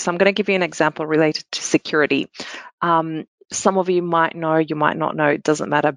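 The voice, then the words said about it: Australian accent. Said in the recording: “as you can tell by the accent, I'm in Sydney”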